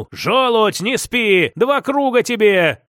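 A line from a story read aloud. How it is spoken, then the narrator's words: Loud barked shout. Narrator (Russian): гаркнул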